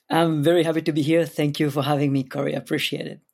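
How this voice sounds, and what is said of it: Speaks with a distinct accent. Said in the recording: “somebody that's got a fun accent”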